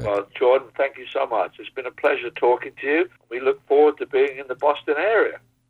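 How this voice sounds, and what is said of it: Distinctive accent. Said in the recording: “don't you just love that accent?”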